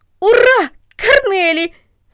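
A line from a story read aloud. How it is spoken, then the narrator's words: Man shouting. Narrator (Russian): закричал он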